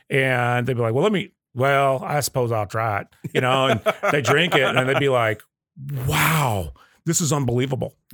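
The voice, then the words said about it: Put-on Southern accent. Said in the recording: “Did you just do a Southern accent”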